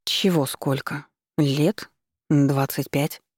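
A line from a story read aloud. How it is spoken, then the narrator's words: Uncertain voice. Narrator (Russian): Неуверенно проговорила я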